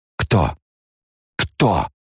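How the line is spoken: Strained, teeth chattering. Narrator (Russian): Стуча зубами, Алия с трудом выдавила из себя

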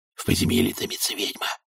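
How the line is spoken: Whispered into ear. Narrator (Russian): прошептал кто-то матушке в самое ухо

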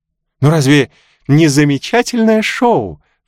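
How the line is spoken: Exclaiming. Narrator (Russian): воскликнула Милдред

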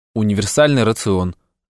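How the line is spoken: Gloomy. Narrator (Russian): мрачно сказал я

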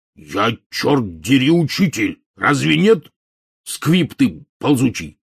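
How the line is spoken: Sudden angry bark. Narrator (Russian): мгновенно вспыхнув, рявкнул Хагрид

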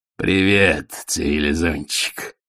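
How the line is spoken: Growl. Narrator (Russian): прорычал он

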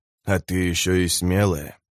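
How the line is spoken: Hoarse rasp. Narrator (Russian): прохрипел он

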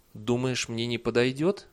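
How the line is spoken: Timid question. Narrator (Russian): матушка-ветровоск немного робко спросила

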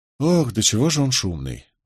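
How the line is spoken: Weary sigh. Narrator (Russian): вздохнул Нетти, слегка утомленный бурным темпераментом приятеля

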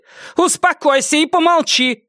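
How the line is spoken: Shout. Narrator (Russian): крикнула Тувессон Фабиану

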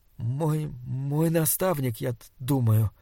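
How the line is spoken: Stammering reply. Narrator (Russian): запинаясь, ответил Саймон

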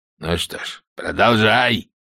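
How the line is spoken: Barked. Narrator (Russian): рявкнул он

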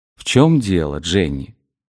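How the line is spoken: Soft, gentle question. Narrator (Russian): мягко и ласково спросил Мортон

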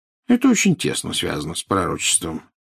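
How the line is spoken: Casual, matter-of-fact tone. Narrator (Russian): сказал Дамблдор будничным тоном, словно речь шла о погоде на завтра

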